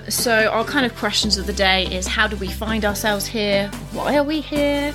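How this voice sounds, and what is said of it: British English accent. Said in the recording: “we are two British expats, obviously British... if you can't tell by the accent”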